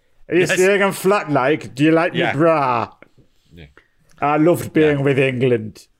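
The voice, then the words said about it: Reeves and Mortimer-style comic impression. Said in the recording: “there was more than a touch of Reeves and Mortimer about your original impression”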